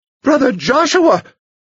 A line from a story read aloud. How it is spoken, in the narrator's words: the sister shrieked